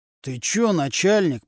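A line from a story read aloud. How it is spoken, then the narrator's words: Through gritted teeth. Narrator (Russian): процедил сквозь зубы Нечипаренко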